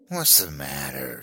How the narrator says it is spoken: she sneered

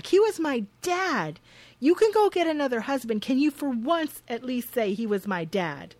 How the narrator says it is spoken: Nadine screeches back

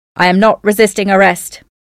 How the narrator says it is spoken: Oswald shouted

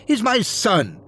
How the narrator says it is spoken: Jenna cried

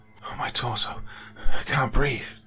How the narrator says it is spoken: force out between breaths

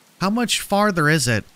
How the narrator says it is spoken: Neil whined

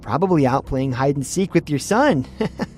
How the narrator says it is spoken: laughed

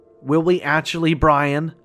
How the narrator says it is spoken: I yelled at him

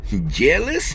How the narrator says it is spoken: Don laughed

